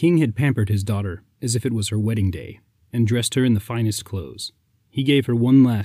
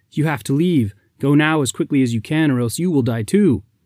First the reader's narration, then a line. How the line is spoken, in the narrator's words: Surprised, the princess shouted